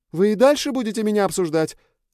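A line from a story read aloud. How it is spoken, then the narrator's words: Shouted from outside. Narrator (Russian): выкрикнула она уже с улицы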